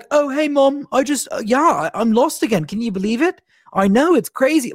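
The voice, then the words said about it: Imitates a character's voice. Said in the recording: “my Steven impression”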